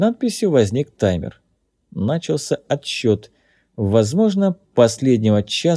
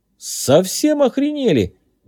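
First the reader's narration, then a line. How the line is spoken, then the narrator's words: Exclaiming. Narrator (Russian): воскликнул Джей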